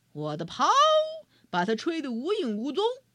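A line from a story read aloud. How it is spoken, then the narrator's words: Bear's roar. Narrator (Chinese): 熊咆哮道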